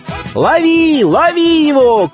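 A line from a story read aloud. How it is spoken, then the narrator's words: Several lads shouting. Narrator (Russian): кричало несколько хлопцев в тесном конце улицы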